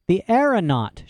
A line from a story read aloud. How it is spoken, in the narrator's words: she exclaimed